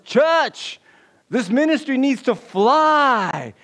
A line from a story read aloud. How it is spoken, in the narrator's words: The preacher roars